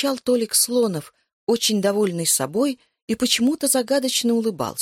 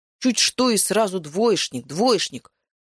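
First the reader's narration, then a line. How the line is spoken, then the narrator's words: Hurt grumbling. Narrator (Russian): уязвленно заворчал Пыпин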